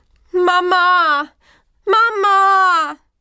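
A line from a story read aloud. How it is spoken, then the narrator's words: Small lamb calling repeatedly. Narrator (German): Das kleine Schäfchen rief und rief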